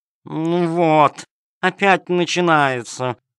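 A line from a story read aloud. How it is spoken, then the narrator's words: Cat's purring voice. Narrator (Russian): промурлыкала кошка-хромоножка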